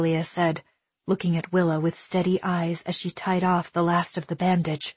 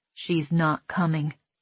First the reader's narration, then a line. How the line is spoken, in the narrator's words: Hialeah said, her voice grim and steady